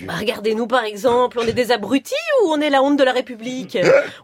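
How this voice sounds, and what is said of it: Belgian French accent. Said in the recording (French): “moi j'ai l'accent belge”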